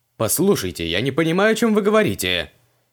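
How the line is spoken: Irritated denial. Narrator (Russian): Раздраженно отнекивался Флетчер

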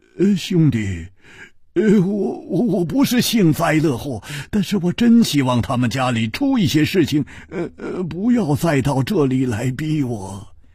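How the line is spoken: Sighing, bitter smile. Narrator (Chinese): 他叹了一口气，苦笑着说

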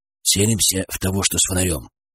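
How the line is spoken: Whisper. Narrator (Russian): шепнул Артем

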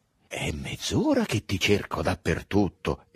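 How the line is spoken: Exclaiming. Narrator (Italian): esclamò a Drogo

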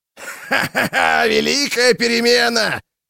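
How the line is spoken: Howling with ecstatic laughter. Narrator (Russian): взвыл кто-то, заливаясь безумным восторженным хохотом

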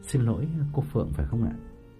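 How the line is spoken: Gentle polite question. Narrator (Vietnamese): có người nhỏ nhẹ hỏi

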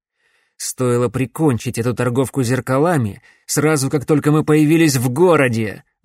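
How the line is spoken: Spiteful declaration. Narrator (Russian): злобно заявил Шепард

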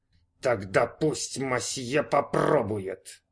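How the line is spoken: Waiter speaking through teeth. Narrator (Russian): процедил официант

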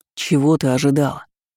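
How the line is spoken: Growled. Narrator (Russian): зарычал

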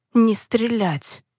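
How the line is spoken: Hoarse voice. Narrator (Russian): хрипло произнес человек

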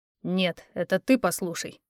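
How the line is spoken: Through gritted teeth. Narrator (Russian): процедил Эрик

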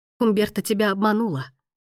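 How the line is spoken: Hoarse whisper. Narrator (Russian): хрипло прошептала Дамиана

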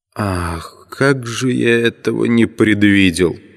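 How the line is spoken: Hoarse. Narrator (Russian): сказал хрипло

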